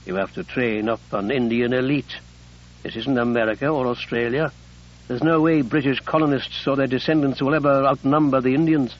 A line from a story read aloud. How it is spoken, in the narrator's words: she said gently